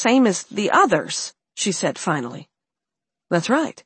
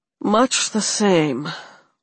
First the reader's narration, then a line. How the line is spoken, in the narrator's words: Max said with a loud sigh